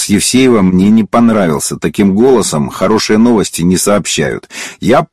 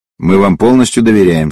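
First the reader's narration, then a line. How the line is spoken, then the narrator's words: Said calmly. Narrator (Russian): спокойно сказал Клементьев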